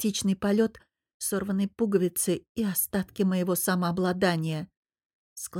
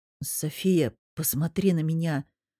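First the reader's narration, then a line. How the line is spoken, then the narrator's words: Low hoarse voice. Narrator (Russian): произнес Мирон низким хриплым голосом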